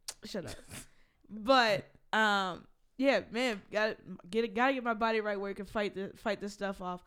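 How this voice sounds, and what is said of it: Voice sounds unusual, off. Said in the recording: “I know y'all hear my voice is weird right now”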